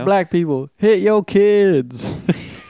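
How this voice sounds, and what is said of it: Impression of a hacky black comedian. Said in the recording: “my impression of hacky black comedy”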